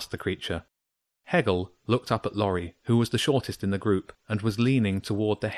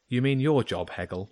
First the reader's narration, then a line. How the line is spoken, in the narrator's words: James said